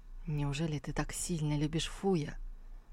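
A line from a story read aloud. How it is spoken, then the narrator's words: Quiet young man. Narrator (Russian): Молодой человек тихо проговорил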